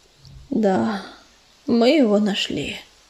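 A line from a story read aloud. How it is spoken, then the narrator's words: Muffled answer. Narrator (Russian): глухо ответил он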